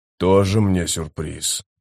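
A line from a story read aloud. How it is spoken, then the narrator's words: Grumbled. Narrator (Russian): проворчал Маппо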